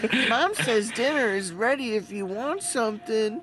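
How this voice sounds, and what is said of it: High little-child character voice. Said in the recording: “where the fuck did that voice come from? ... it's like a little child oo-woo.”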